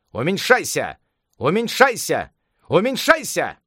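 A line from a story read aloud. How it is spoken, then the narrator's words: Shouted. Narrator (Russian): царь обезьян крикнул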